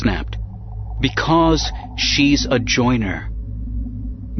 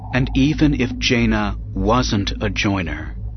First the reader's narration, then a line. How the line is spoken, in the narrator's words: Leia said slowly